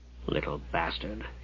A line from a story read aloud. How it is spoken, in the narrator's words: Hugh muttered beneath his breath